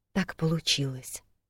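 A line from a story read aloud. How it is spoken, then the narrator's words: Quiet answer. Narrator (Russian): тихо ответила я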